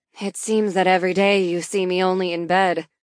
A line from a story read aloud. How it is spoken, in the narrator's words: Allison adds dryly